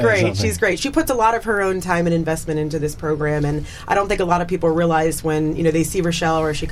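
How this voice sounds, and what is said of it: Usual voice. Nothing is said of it.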